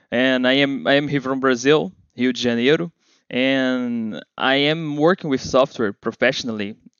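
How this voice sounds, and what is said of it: Brazilian-accented English. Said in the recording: “with the Brazilian accent.”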